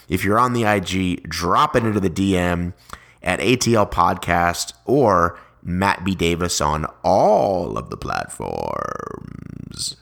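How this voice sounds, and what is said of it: Announcer-style radio voice. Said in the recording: “my sexy, not-so-sexy radio voice”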